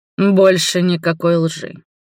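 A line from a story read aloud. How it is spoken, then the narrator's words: Stern reply. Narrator (Russian): строго ответил Роберт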